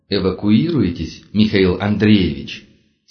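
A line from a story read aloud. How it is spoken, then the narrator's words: Plain. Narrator (Russian): спросил он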